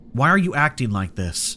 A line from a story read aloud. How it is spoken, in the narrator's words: demanded, trying to keep my voice steady